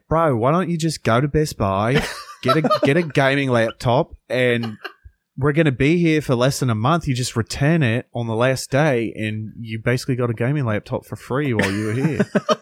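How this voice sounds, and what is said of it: Put-on Australian accent. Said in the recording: “it's a really good impression. ... The accent was great. ... I've always kind of done an Aussie accent”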